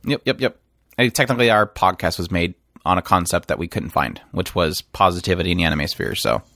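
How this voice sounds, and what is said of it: Usual voice. Nothing is said of it.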